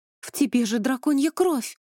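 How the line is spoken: Bitter exclamation. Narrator (Russian): воскликнула Вив с горечью

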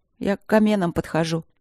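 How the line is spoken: Sad. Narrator (Russian): грустно сообщила Алинка

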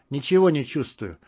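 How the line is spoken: Gloomy. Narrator (Russian): мрачно сказал Вадик

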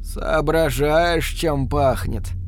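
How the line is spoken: Hoarse question. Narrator (Russian): спросил он хрипло

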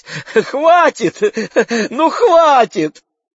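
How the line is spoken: Shouting half laughing. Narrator (Russian): Мэгги кричала, наполовину смеясь

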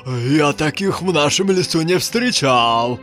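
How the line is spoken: Surprised exclamation. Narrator (Russian): удивленно воскликнул леший

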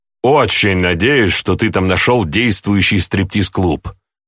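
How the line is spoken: Snorting. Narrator (Russian): хмыкнул я

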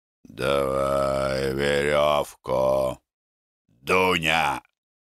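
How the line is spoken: Hoarse. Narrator (Russian): хрипло говорил Морок

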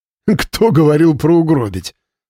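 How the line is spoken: Laughing. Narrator (Russian): засмеялся Павел

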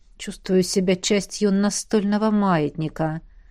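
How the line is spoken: Wistful sigh. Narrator (Russian): Вздохнул с тоской

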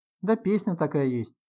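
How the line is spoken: Sighing. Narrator (Russian): вздохнул Сережа

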